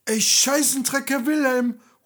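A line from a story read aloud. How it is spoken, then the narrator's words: Sudden shout. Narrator (German): ruft plötzlich René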